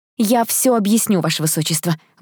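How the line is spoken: Flustered exclamation. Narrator (Russian): воскликнула я, чувствуя, как горят щеки

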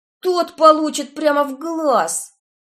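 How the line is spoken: Angry screaming. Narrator (Russian): завопила Стефани с таким злобным видом

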